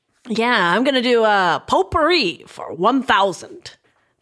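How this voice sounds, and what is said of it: Imitates another person's voice. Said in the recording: “my really good Sean Connery impression”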